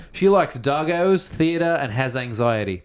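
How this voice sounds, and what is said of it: Put-on Australian accent. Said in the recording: “Should I say this in an Australian accent? Because it's clearly an Australian.”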